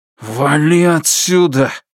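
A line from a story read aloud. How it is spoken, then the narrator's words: Hissed through clenched teeth. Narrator (Russian): прошипел сквозь стиснутые зубы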